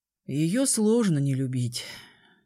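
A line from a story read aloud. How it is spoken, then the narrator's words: Sighing. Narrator (Russian): вздохнул он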